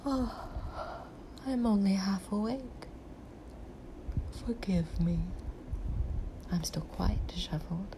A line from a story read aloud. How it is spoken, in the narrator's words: she yawned and said